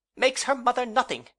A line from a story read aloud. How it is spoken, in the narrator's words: exclaimed Mrs